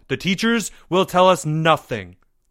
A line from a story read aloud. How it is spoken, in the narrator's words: Leo snapped